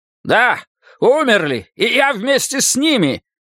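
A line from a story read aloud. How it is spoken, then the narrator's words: Shout. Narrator (Russian): крикнул Харви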